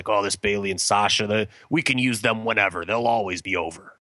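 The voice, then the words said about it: Weak Vince McMahon impression. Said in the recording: “that's not a good Vince impression,”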